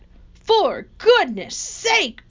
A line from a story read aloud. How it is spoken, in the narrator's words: bellowed Mr